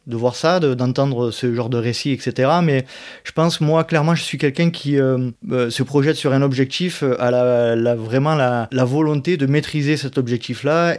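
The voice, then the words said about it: Southern French Provençal accent. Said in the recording (French): “je suis d'Aix-en-Provence, à côté d'Aix-en-Provence, voilà, d'où la raison de mon accent”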